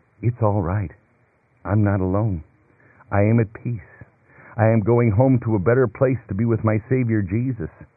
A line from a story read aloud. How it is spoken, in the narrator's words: a Christian can calmly say